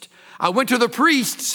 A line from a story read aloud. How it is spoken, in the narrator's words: he cried